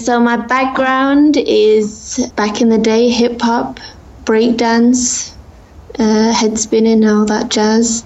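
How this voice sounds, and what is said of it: English accent. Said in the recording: “they're probably obviously hearing an accent in your voice ... England, Sheffield.”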